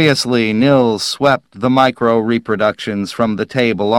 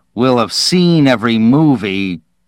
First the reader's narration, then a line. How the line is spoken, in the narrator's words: snarled